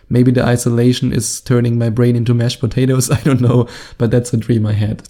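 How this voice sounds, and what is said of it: German-accented English. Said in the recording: “my German accent”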